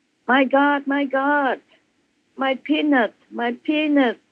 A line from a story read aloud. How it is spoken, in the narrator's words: screamed out loud